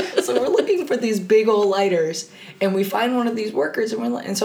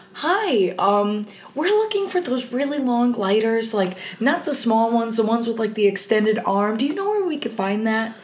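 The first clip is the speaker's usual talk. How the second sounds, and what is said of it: Polite customer service voice. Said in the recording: “my best customer service voice”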